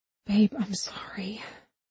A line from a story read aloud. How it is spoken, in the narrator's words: she whispered